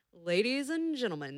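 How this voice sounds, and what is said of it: Sexy radio announcer voice. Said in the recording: “my radio voice ... that sounds pretty sexy. You need to calm down a little bit.”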